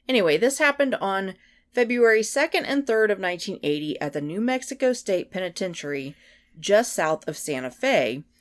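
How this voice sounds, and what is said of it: Sick, strained voice. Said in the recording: “if you can't tell, my voice is still a little bit under the weather. I'm going to try and hold it together”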